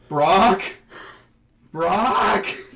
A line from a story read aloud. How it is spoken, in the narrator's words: Ashton starts yelling